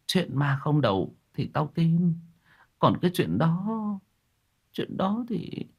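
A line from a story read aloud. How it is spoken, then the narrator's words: Sighing. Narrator (Vietnamese): Bà liếc mắt một cái rồi thở dài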